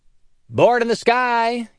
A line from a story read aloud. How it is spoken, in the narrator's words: yelled one of the guys